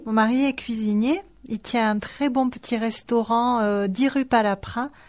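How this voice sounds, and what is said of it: Toulouse French accent. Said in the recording (French): “J'ai l'accent toulousain surtout.”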